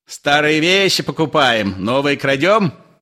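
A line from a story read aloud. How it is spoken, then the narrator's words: Shouted after someone. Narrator (Russian): крикнул Остап вслед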